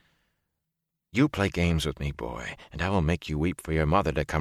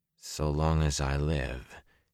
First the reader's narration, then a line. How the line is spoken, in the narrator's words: he said in a dull voice